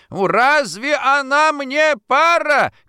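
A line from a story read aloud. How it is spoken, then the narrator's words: Loud unrestrained shouting. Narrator (Russian): кричал, не считаясь тем, что его слышно во всей квартире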